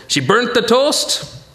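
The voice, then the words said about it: Unconvincing put-on Jewish accent. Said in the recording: “That's my Jewish accent. I hope it sounds right. ... No, that doesn't sound Jewish at all.”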